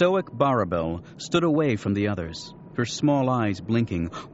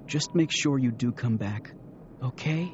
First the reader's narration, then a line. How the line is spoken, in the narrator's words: She whispered close to his ear